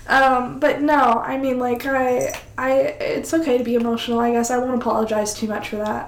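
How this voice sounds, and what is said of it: Nasal, tearful voice. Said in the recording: “hear it in my voice. I'm sure you can hear me crying ... She's got a cold ... I sound super nasally”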